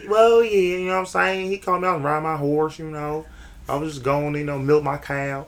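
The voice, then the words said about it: Heavy country accent. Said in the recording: “With a big country heavy-ass accent”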